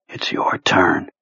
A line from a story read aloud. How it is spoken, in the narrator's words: he whispered